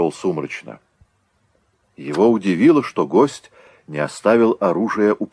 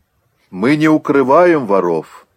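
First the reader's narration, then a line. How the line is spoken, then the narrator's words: Loud. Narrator (Russian): сказал громко креол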